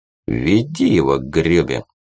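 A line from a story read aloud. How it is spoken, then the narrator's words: Calm. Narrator (Russian): уже спокойно произнес мур в наколках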